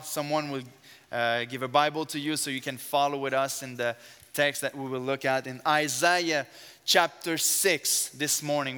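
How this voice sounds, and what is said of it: Strong French accent. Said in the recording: “I have an accent. My first language is French ... I have a very strong French accent”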